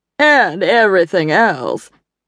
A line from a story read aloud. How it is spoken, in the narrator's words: Evelyn added dryly